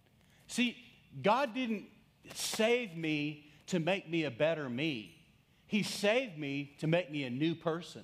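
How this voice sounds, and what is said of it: Texas accent. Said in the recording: “my Texas accent”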